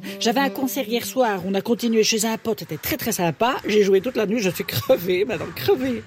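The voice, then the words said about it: Odd Belgian French accent. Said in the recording (French): “pourquoi tu parles avec cet accent bizarre ... Gudule de Belgique. Ah ben voilà, c'est peut-être pour ça que j'ai un accent”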